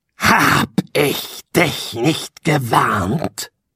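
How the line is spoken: Low breathy murmur. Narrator (German): raunte die Eiche und hauchte ihren modrigen Atem den Prinzen entgegen

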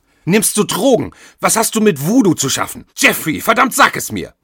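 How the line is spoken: Screaming and crying. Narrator (German): Catherine schrie und weinte

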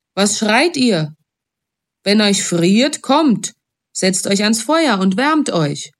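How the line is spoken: Called out. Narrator (German): rief er

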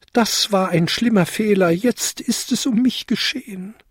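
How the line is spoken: Wailing lament. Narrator (German): jammerte er

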